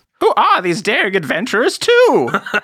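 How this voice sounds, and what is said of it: Old wizard character voice. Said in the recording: “That is a good Elminster voice”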